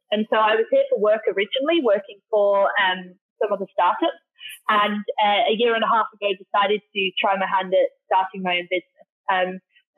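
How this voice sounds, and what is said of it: Northern English British accent. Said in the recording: “You can tell by my accent, can't you? ... I'm from the UK originally, a place called Darlington, so up near Newcastle.”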